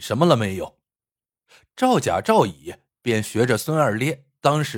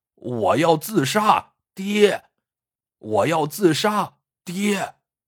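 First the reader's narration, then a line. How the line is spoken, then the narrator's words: Hoarse, desperate shout. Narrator (Chinese): 喊了两声，声音都嘶哑了，很是绝望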